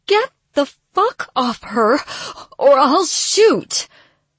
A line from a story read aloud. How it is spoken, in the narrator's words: Her voice wavered